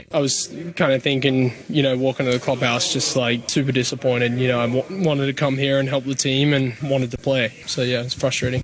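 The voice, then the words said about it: Australian accent. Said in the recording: “Yes, that's an accent you're hearing. He's Australian by birth”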